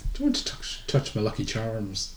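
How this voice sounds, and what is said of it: Bad put-on Irish accent. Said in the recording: “I'm just doing a bad Irish accent”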